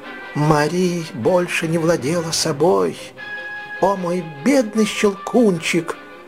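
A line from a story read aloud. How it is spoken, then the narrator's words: Frantic sobbing exclamation. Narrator (Russian): воскликнула она, рыдая и не отдавая себе отчета в том, что делает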